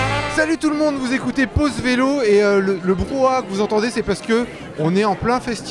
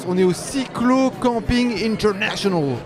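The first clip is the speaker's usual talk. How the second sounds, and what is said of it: Put-on American accent. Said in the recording (French): “J'aime bien le dire avec un accent américain”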